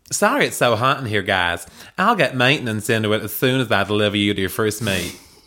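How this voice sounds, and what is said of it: Sassy put-on American accent. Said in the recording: “I'm genuinely wowed by the accent. ... I want him to read the whole book in this accent. ... I do want to apologise to all of our American listeners. ... with this accent comes a hand on the hip. ... it's real sass”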